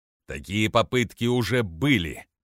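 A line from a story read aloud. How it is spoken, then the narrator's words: Growling. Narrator (Russian): прорычал Джикстас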